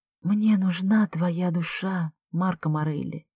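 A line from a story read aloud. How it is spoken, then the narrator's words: Soft whisper. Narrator (Russian): тихо шепчу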